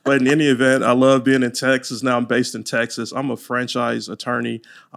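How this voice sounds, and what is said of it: Louisiana Southern twang. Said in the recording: “I'm from Louisiana, so you might hear that Louisiana twang.”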